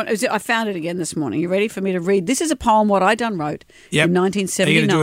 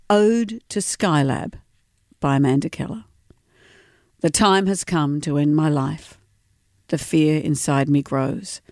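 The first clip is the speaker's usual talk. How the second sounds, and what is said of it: Serious poem-reading voice. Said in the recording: “I'll just do my serious poem reading voice.”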